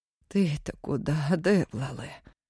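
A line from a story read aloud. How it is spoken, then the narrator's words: Old woman moaning. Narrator (Russian): стонала старая Настя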